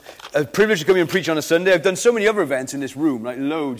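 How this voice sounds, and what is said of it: Welsh Valleys-Cardiff accent. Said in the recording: “I'm kind of a Valleys Cardiff mongrel ... my accent's all over the shop”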